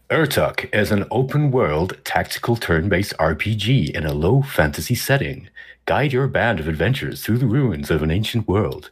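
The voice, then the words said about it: American-sounding game trailer narrator voice. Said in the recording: “Is that your American accent? ... That's my kind of game trailer accent. ... It sounded a little American.”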